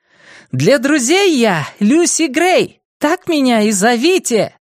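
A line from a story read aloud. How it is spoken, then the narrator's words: Shouting. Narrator (Russian): выкрикнула она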